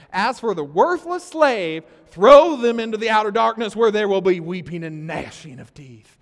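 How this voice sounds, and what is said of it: Put-on Southern preacher accent. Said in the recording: “I'll just read it as some preachers do ... You need the southern accent”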